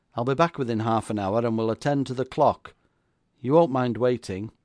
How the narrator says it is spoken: cried John Haddon

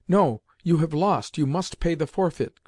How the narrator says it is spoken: cried Seriosha at that moment

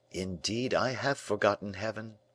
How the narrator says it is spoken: murmured the prisoner with emotion

